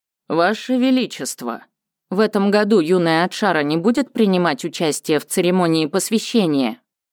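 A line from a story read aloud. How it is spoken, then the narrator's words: Plain. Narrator (Russian): спросил Михур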